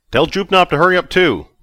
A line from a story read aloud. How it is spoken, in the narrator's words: Vic yelled back